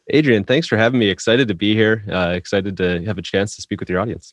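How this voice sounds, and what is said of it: Nearly Midwestern, nearly Canadian accent. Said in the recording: “I can hear that sort of nearly Midwestern, nearly uh, Canadian tilt going on. ... keeps us from having a full Canadian accent.”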